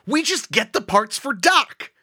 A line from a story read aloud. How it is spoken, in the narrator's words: I yelled